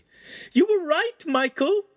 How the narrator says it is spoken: she squealed

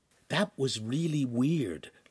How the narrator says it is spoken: Lincoln said in a stage whisper

